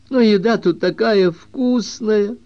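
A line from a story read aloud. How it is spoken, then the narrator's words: Sad objection. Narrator (Russian): грустно возразил Рионда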